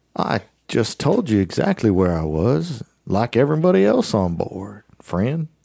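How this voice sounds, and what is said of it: Southern plantation-style accent. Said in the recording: “sounds like they came from Candyland ... the general Candyland accent ... sounds like they came off of a plantation”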